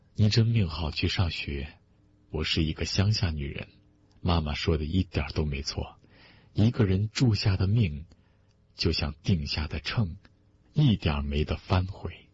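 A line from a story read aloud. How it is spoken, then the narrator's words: Sighing. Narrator (Chinese): 他叹了口气说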